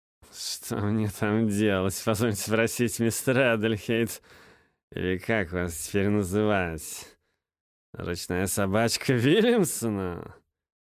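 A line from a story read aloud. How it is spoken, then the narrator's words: Scornful snort. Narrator (Russian): Фыркнул Смит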